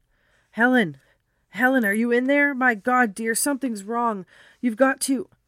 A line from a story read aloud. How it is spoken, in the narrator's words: shouting